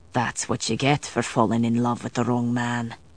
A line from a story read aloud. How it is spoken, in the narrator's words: he said under his breath